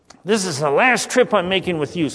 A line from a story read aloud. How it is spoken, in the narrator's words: snapped the son